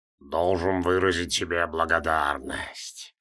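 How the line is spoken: Hissed. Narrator (Russian): прошипел он

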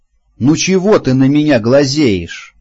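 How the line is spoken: Shouted. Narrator (Russian): крикнул, остановившись я

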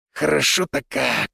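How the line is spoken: Satisfied exhale. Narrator (Russian): выдохнул Финн

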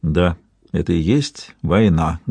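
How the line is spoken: Muffled repeating. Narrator (Russian): глухо повторяет он

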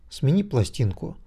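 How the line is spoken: Calm. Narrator (Russian): спокойно ответил Виктор

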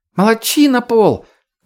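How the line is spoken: Shouted. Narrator (Russian): крикнула Лея

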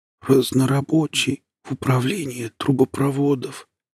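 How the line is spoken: Hoarse whisper. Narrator (Russian): хрипло прошептала Лина

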